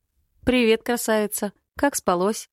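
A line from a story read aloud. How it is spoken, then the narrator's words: Cheerful question. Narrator (Russian): спрашиваю бодро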